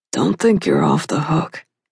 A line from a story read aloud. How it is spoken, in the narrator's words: said, his voice low and husky